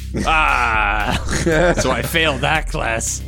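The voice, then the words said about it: Speaks in a character voice. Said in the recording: “You do that in your character voice when you say that.”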